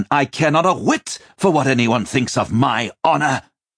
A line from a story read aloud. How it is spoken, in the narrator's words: the prince snapped